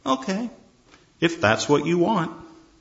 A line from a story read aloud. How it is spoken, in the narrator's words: The husband calmly says